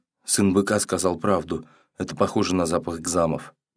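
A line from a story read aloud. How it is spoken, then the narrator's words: Whisper. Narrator (Russian): Зур наконец прошептал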